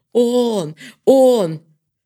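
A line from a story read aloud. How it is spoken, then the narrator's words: Joyful shout. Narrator (Russian): Юра радостно закричал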